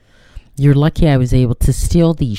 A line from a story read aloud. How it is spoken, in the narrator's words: she says